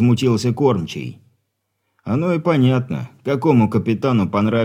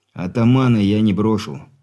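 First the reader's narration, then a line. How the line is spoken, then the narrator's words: Calm declaration. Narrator (Russian): спокойно заявил Зван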